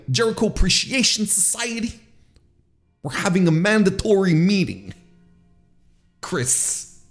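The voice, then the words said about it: Imitates another person's voice. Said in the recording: “my Matt Menard impression”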